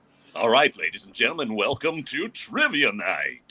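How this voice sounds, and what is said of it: Game show host announcer voice. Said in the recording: “has that game show voice... can you give us some game show ambiance voice?”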